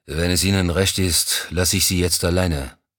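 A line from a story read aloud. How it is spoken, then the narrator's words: Grumbling. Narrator (German): brummte Mousson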